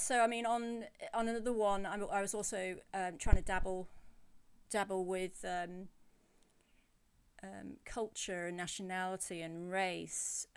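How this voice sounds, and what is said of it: English accent. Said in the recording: “I'm English, as you can tell by my voice”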